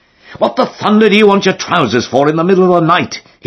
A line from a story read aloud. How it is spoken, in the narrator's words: he asked indignantly